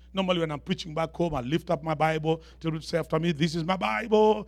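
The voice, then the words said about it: African accent. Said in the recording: “This is an African accent. I hope you can understand what I'm saying.”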